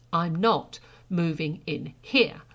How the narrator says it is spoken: Sara said again firmly

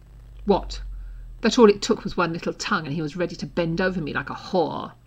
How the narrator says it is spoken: Draco snapped viciously, loud enough to be overheard

